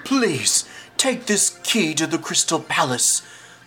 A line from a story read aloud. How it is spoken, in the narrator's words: the hawk sputters